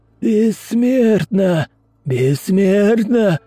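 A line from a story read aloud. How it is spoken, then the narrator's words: Hoarse wheezing of the dead. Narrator (Russian): хрипели мертвецы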